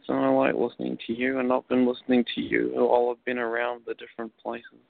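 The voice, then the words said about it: Lovely accent. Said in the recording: “Where is your accent from? It's just lovely.”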